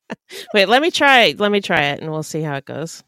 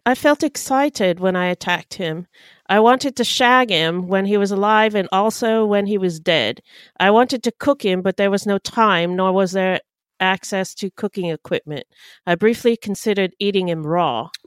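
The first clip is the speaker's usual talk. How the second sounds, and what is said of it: Posh British accent. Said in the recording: “I think that's more of a posh accent.”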